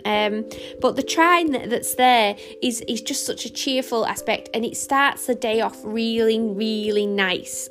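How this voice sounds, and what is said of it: Speaker's own regional accent. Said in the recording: “I keep calling them a trine, but, you know, I can't help it. I think it's just my accent.”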